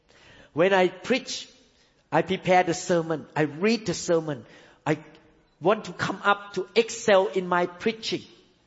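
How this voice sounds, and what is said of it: Non-native English accent. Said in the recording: “accent in English ... try to correct my accent”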